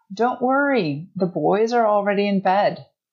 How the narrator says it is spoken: she called out

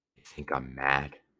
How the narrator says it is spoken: whispered, and tears like drops of wax flowed from his eyes

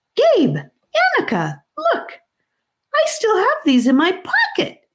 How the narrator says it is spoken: he squeaked

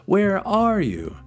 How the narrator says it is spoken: cried Christopher Robin

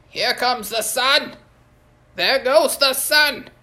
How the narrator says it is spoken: One old jackal-headed god yelled

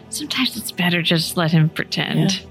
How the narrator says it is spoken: Ellen whispers

